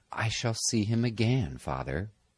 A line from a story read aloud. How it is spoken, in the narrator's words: She smiled, and said in a whisper